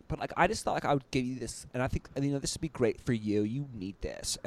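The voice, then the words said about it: Deliberately bad imitation of a woman. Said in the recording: “bad goddess impersonation”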